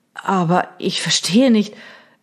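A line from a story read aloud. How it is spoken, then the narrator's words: Stammered. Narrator (German): stammelte Reynolds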